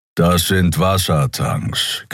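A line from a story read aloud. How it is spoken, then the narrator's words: Growled. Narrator (German): knurrte Keero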